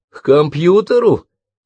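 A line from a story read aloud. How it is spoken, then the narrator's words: Snorted. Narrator (Russian): фыркнула Карен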